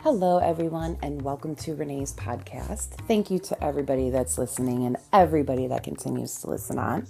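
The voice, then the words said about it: Raspy, quiet, tired voice. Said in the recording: “my voice is a little bit raspy today, so I am talking quietly ... Just a little tired ... bear with me on how I sound”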